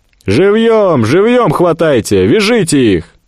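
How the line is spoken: Shout from the darkness. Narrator (Russian): Саед из темноты прокричал

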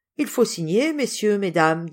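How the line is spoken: Plain. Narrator (French): dit le notaire

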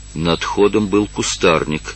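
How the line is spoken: Reflective whisper. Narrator (Russian): прошептал он, припоминая все обстоятельства

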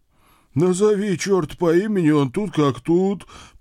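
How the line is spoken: Frightened groan. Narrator (Russian): простонал наш младший сотрудник, прячась за мою спину

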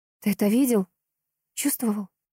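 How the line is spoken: Whispered question. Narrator (Russian): шепотом спросила она у Глеба

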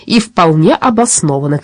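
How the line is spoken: Shout. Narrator (Russian): крикнул обервахмистер Дипфельмозер

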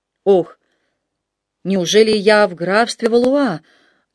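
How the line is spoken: Trembling voice, monk. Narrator (Russian): дрогнувшим голосом произнес монах

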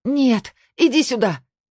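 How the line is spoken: Shout. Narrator (Russian): крикнула Сабина

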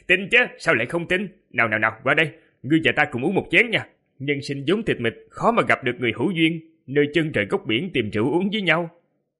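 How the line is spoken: Surprised, laughing loudly. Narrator (Vietnamese): Thiếu niên đó kinh ngạc, đột nhiên cười to, nói

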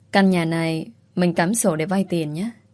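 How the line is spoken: Hesitant. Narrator (Vietnamese): Tôi nhìn Duy ngập ngừng

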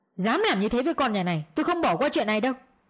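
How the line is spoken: Angry voice from outside. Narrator (Vietnamese): giọng của bố bên ngoài giận dữ

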